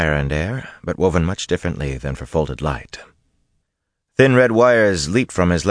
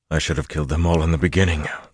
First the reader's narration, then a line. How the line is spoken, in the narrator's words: Luz Theron panted